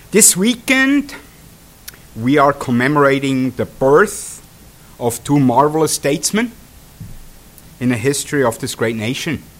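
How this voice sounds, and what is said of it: Swiss accent. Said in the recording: “for you guys to get used to my Swiss accent”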